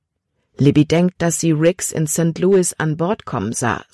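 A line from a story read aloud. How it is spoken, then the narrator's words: Plain. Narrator (German): sagte Caleb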